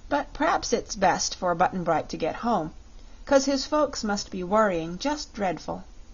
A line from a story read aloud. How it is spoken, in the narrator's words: said Dorothy with a sigh, for she was fond of her little comrade